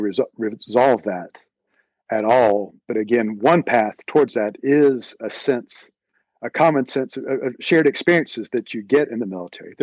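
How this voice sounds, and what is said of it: Southern US accent. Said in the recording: “a North Carolinian ... someone like me with a Southern accent”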